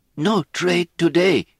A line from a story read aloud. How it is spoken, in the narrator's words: he said in a terrified voice